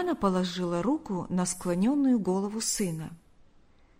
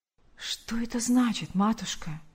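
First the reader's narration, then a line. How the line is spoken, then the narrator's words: Whispered. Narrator (Russian): прошептал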